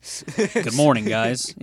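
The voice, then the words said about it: Put-on British accent. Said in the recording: “Do it as a British man ... your British impression”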